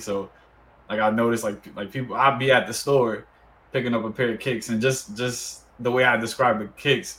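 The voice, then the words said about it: Deep New York accent. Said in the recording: “I have a like, you know, deep New York accent, or, like, people recognize it wherever I'm at”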